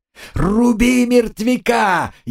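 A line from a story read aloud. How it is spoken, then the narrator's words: Furious yell. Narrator (Russian): яростно заорал Валенца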